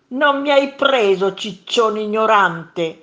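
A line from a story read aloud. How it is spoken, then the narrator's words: Monster shouting. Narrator (Italian): gridò il primo mostro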